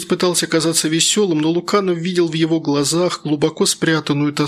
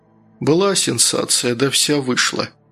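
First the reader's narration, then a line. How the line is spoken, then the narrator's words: Sighing. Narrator (Russian): вздохнул Луканов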